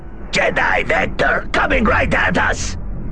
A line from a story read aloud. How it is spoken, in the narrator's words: Chell Trambin yelled